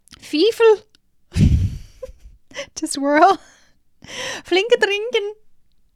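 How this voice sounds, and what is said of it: Attempted Scottish accent, sounds German. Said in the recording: “how would it be in a Scottish accent? ... That still sounds German.”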